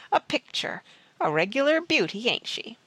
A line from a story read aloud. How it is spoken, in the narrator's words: the ruffian chuckled